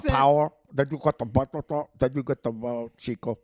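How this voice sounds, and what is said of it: Put-on movie gangster accent. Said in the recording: “accent.”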